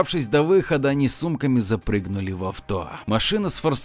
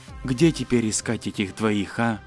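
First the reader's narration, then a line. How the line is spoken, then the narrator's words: Whisper. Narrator (Russian): Лев прошептал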